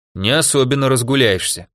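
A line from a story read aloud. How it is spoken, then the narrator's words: Snorting. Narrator (Russian): хмыкнул Григорий Яковлевич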